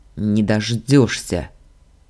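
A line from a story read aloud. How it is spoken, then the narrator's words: Grudging through gritted teeth. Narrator (Russian): процедил я, понимая, что девчонка выиграла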